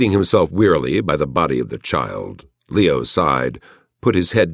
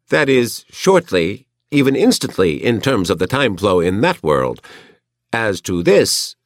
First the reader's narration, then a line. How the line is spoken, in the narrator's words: it chuckled